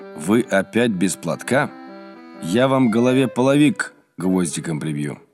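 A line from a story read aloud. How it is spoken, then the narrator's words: Stern. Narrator (Russian): Отец Рафаил строго сказал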